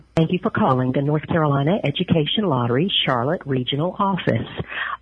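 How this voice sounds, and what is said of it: Slight American country accent. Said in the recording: “She's got a little country accent.”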